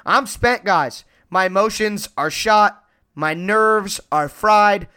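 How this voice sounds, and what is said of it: Strained, worn-out voice. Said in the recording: “My voice is hanging on by a vocal thread.”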